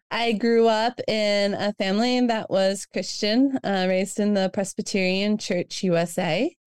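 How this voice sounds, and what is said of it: Slight Southern American accent. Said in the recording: “I've got a little bit of the Southern accent going on still, I'm told”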